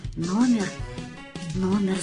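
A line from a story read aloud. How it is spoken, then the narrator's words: Muttering. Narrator (Russian): забормотал я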